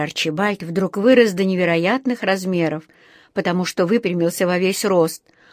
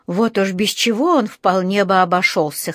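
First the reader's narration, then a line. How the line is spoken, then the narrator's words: Scoffing snort. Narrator (Russian): хмыкнул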